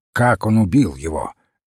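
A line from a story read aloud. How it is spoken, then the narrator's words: Sharp question. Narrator (Russian): резко спросил Крейг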